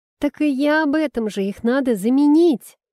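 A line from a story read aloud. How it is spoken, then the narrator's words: Joyful exclamation. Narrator (Russian): радостно воскликнул принц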